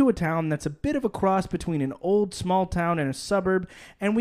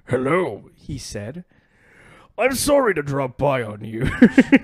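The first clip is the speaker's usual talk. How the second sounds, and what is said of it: Old man voice, sounds like wizard. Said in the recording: “I'll do a voice for him ... Why is he a wizard? ... don't make fun of the voice”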